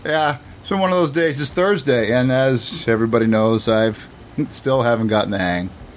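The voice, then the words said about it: Boston accent. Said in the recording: “That Boston accent is never going to leave you, is it?”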